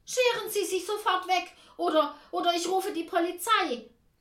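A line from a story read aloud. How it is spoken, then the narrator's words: Calling out. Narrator (German): Tante Ernie ruft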